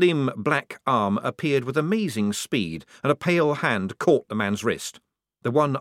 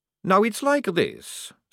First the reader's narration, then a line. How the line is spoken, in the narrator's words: said Maledict calmly